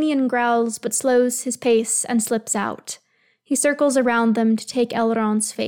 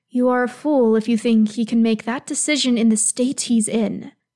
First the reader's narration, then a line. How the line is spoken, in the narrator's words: Celebrimbor hisses back